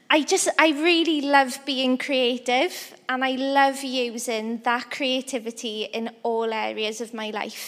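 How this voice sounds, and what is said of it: Welsh accent. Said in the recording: “I'm from a little country in Wales. That's part of the UK. That's where the accent is from.”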